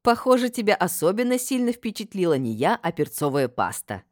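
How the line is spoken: Female laughing. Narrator (Russian): рассмеялась я

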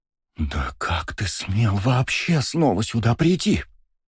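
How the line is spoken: Shouted whisper. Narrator (Russian): Если можно орать шепотом, то это был тот самый случай

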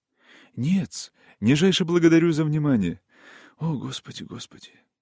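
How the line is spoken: Quiet groaning mutter. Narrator (Russian): Тихий человечек, кряхтя, охая и нашептывая

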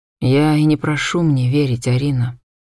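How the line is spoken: Gentle objection. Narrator (Russian): мягко возразил он

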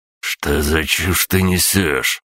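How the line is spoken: Hissed. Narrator (Russian): прошипел Аврелий

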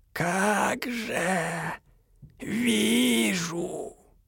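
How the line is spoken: Creaky unfriendly old voice. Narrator (Russian): проскрипела мать-настоятельница, неприветливо

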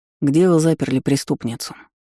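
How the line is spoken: Plain. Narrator (Russian): спросил стражник

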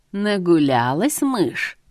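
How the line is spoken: Close menacing hiss. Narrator (Russian): прошипел Артурчик мне в лицо

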